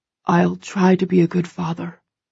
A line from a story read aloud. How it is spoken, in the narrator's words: he whispers against my lips